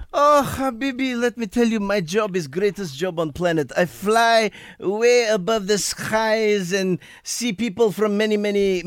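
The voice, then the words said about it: Put-on Middle Eastern accent. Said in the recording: “tells us a story in the accent where the story comes from ... your story comes from the Middle East”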